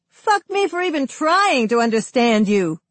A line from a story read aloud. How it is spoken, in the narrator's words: A woman under a streetlight shouts at no one